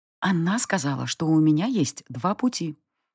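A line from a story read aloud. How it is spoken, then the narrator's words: Whisper. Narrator (Russian): прошептала мне девушка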